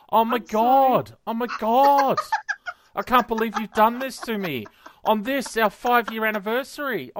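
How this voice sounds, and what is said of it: Exaggerated Aussie bogan accent, Greek touch. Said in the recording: “What's the accent? ... that's more like Stoner Bogan or something ... It was way out there. There was a touch of Greek in it too, like Aussie Greek, like Melbourne Greek”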